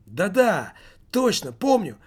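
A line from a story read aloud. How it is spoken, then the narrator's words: Exclaimed. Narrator (Russian): воскликнул Немаркетинг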